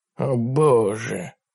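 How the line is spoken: Mumbled. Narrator (Russian): пробормотал Ларри

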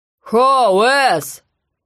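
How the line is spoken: Shout. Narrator (Russian): крикнул Гон

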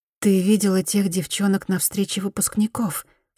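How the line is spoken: Plain. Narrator (Russian): спросила Мияко

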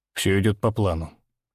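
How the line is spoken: Calm reply. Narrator (Russian): отвечает он спокойно

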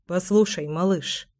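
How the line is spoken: Muttering. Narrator (Russian): пробормотал Семен

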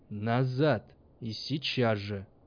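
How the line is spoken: Icy demand. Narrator (Russian): потребовал он ледяным тоном

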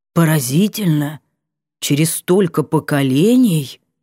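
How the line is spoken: Amazed drawl. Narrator (Russian): изумленно протянул Вольпан

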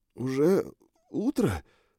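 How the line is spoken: Whisper through numb lips. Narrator (Russian): прошептал я окоченевшими губами

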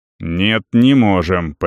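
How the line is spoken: Near growl. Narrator (Russian): почти прорычал Вент

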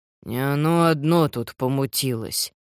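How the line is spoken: Mutter. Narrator (Russian): буркнул Уокер

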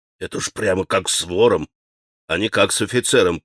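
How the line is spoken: Grumbling to himself. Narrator (Russian): проворчал он про себя

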